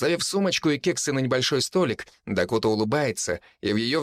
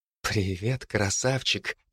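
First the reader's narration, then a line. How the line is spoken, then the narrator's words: Soft laughter. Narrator (Russian): тихо смеется она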